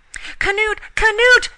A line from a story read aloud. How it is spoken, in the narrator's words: she screamed in terror